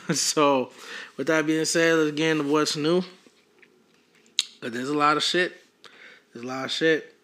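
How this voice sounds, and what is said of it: Hoarse, fading voice. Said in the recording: “why am I losing my voice?”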